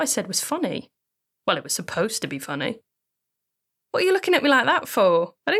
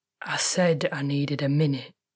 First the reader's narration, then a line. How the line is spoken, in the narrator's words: he groaned, biting onto his fist